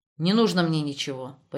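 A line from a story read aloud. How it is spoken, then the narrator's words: Almost rude reply. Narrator (Russian): почти грубо отозвался Штребль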